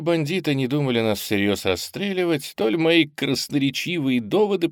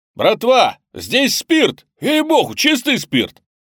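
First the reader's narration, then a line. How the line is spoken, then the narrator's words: Incredulous shout. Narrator (Russian): Председатель ревкома недоверчиво крикнул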